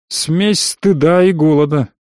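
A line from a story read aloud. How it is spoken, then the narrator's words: Grumbled. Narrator (Russian): буркнул я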